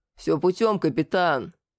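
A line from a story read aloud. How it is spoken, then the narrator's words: Deep bass voice. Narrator (Russian): пробасил тот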